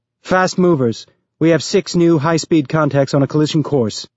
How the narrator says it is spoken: Becca yelled out

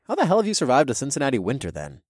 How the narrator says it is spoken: asked with a chuckle

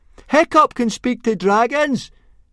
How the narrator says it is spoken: shouted Fishlegs very loudly indeed

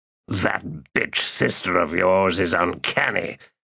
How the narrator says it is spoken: Kalor said in a growl

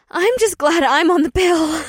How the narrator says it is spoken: Janine blurted out

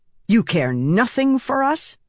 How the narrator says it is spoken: Silence snapped

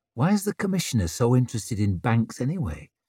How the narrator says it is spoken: muttered Tallow

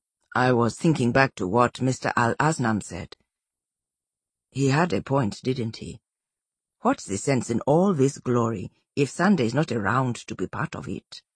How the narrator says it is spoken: kept his voice low, not wanting to disturb the other sleepers

